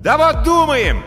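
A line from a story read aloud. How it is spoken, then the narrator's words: Loud yell. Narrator (Russian): заорал Тиберий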